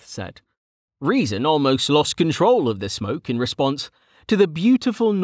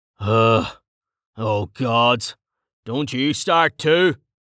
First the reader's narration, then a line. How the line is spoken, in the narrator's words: the man growled